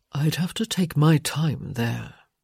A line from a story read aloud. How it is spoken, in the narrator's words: he murmured